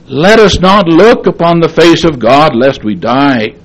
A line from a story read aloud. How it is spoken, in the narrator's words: the children of Israel pleaded with Moses